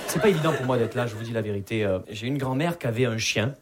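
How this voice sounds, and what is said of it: Southern French Perpignan accent. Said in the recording (French): “Vous l'entendez à mon accent, je viens pas de Paris. Je viens de Perpignan.”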